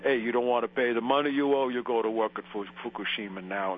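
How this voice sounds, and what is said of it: Put-on Italian accent. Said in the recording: “I'll do the Italian accent.”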